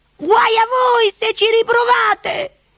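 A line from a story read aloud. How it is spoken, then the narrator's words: Angry shout. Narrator (Italian): gridò irata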